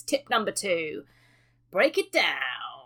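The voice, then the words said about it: Imitates another person's voice. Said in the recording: “That was my Hammer Time impression.”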